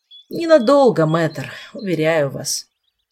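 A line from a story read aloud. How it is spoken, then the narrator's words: Sigh. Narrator (Russian): вздохнул мистралиец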